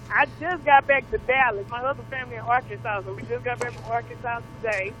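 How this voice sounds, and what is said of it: Texas twang accent. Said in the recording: “I hear that Texas twang ... I love the accent”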